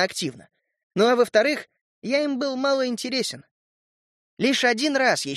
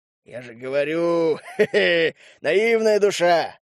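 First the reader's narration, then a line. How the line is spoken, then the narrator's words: Chuckling. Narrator (Russian): хохотнул Дег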